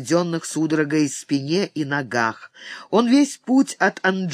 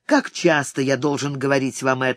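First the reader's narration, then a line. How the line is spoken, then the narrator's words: Mildly annoyed. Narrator (Russian): сказал Торанага, но не очень сердито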